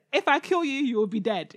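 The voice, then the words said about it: Put-on African accent. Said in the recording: “African accent”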